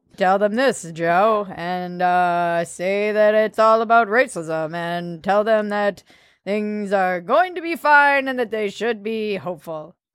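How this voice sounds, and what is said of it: Imitates another person's voice. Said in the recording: “That was my Obama ... that was a pretty good Obama impression, actually”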